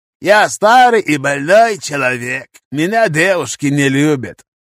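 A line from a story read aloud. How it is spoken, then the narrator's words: Creaky voice. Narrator (Russian): проскрипел Карим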